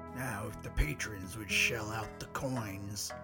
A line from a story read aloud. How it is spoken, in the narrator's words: Bicker grumbled